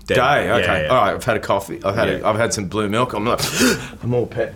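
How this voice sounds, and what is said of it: Put-on Australian accent. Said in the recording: “Can I do it in an Australian accent?”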